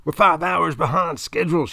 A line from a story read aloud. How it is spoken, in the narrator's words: she screams